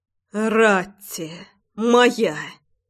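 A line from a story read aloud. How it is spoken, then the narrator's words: Passionate growl. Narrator (Russian): рычал Рома, изливаясь своей страстью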